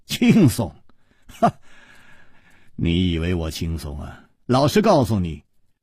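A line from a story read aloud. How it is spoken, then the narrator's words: Wry, bitter tone. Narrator (Chinese): 楚留香苦笑着说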